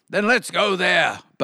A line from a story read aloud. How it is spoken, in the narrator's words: barked the dog